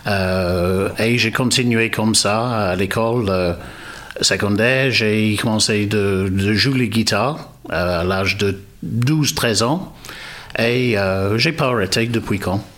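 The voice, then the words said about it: British English accent speaking French. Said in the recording (French): “vous avez un accent ... Je suis d'origine britannique ... un accent de midi d'Angleterre”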